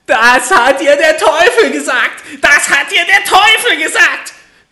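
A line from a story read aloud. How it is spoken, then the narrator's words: Little man screaming furiously. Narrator (German): schrie das Männlein vor Zorn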